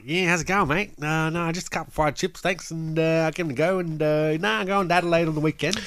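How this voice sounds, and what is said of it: Broad, fast country Australian accent. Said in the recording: “our original accent growing up ... country Australians ... That's way too fast.”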